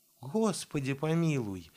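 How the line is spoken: Frightened exclamation. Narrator (Russian): испуганно перекрестилась мать Серафима

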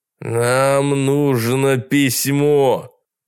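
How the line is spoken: Thundering voice. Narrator (Russian): Голос незнакомца прогремел

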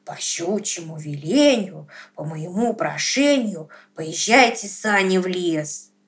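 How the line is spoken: Whispered. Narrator (Russian): прошептал

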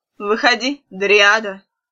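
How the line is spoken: Sharp, too loud. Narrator (Russian): Мать резко и слишком громко сказала

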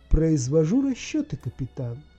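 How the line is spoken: Plain. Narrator (Russian): ответила машина

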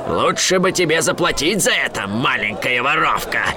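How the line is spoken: Growled. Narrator (Russian): прорычал

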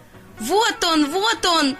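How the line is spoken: Ducklings shouting. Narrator (Russian): закричали утята, которые первыми увидели его

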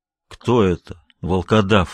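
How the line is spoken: Muffled question. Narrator (Russian): глухо спросил

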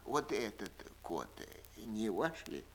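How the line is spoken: Old man's coughing whisper. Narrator (Russian): Старик весь дрожа от кашля шепотом спросил

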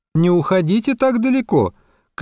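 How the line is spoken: Shouting. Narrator (Russian): крикнула Полина

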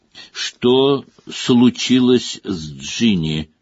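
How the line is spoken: Slow. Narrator (Russian): произнес он медленно

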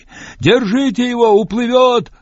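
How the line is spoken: Yelling. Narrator (Russian): завопил Патиорик

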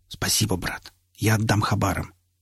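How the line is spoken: Whispered. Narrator (Russian): крепко сжал руку напарника и прошептал

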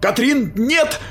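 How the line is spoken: Shout. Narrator (Russian): закричал я

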